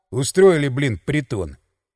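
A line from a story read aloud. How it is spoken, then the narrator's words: Grumbled. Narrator (Russian): проворчал я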